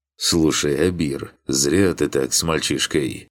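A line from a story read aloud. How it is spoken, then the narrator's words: Deep bass voice. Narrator (Russian): пробасил рядом какой-то голос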